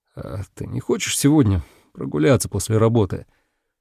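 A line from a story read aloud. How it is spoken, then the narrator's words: Slightly hoarse, impulsive. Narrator (Russian): Я сказал чуть хриплым голосом, поддавшись внезапному порыву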